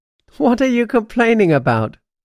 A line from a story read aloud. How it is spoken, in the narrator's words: Quip laughs